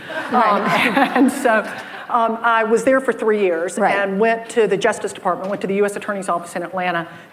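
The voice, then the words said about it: Southern American accent. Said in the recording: “I am discerning a Southern accent that you have.”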